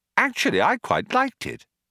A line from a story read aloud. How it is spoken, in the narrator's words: Arthur said brightly